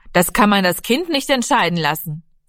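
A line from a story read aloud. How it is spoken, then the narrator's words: Interrupting call. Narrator (German): Vater Lenzen rief dazwischen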